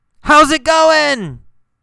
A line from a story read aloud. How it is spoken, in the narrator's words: he yelled